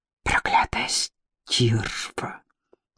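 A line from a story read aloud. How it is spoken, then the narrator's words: Hissing. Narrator (Russian): прошипела Магда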